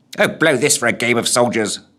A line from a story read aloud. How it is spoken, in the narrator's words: muttered the figure